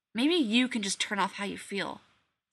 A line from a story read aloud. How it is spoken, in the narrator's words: Sam snapped